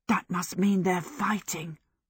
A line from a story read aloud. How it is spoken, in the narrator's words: Michael whispered